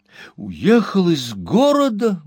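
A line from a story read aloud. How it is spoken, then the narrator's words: Exclamation. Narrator (Russian): воскликнул мистер Пиквик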